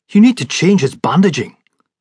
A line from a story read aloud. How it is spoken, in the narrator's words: Clouston snapped